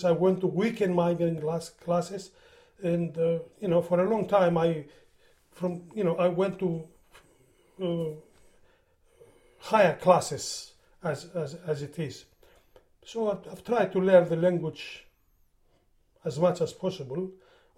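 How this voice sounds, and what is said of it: Non-native English accent, Greek speaker. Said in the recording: “my accent is not the best ... I don't understand how people understand you when you speak English ... I speak English as well as I speak Greek”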